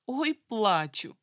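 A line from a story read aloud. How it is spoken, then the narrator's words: Sobbing, suppressing laughter. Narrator (Russian): всхлипнула в трубку, еле сдерживая смех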